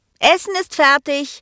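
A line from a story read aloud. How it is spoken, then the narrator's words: Calling upstairs. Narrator (German): rief sie dann nach oben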